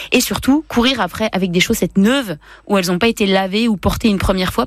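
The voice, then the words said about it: Franche-Comté regional French accent. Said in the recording (French): “avec le bon accent franc-comtois”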